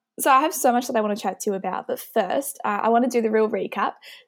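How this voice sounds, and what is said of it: Broad Australian accent. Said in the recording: “a really like bogan Australian accent”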